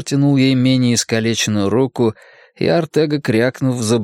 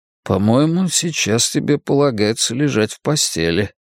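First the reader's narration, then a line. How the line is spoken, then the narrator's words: Gentle remark. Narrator (Russian): мягко заметил я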